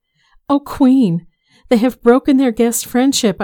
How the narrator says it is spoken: I cried

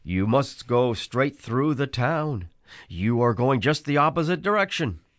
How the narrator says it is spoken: exclaimed

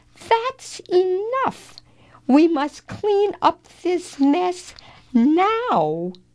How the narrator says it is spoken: cried Leo

